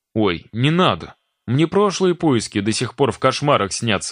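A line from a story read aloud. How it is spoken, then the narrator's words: Exclaimed. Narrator (Russian): воскликнул Макар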